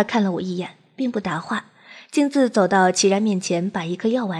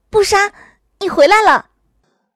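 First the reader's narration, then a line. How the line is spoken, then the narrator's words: Joyful surprised cry. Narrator (Chinese): 惊喜的 叫道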